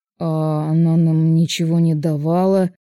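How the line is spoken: Mumbling. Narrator (Russian): Промямлил второй полицейский

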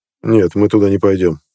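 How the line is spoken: Calm speech. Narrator (Russian): спокойно сказал

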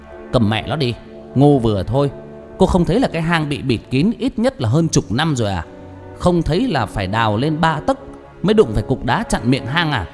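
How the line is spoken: Harsh, through gritted teeth. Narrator (Vietnamese): Tư Huyền gằn giọng

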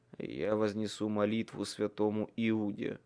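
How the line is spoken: Grumbled mutter. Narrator (Russian): буркнул Майкл

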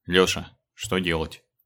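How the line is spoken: Unnaturally calm question. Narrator (Russian): спросил неестественно спокойным голосом

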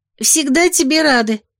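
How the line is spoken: Embarrassed squeak. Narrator (Russian): смущенно пискнула Вилда

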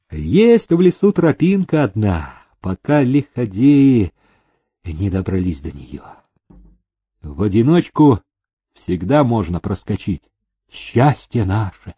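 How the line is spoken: Sighing. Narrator (Russian): вздохнул приказчик

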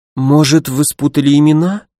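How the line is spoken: Uncertain suggestion. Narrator (Russian): неуверенно предположила директриса

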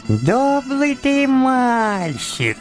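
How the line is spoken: Thin, high voice. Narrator (Russian): сказал он мне тоненьким голоском

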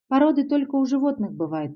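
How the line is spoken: Timid babbling. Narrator (Russian): пролепетала

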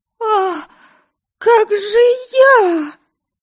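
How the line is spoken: Theatrical, then bitter sobbing. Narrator (Russian): Словно в плохом спектакле вопросила Ами, и горько-горько разрыдалась

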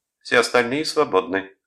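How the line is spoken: Loud announcement. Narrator (Russian): громко объявила мисс Сандерс

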